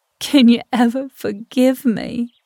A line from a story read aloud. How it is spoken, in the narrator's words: I sobbed, hunched and pathetic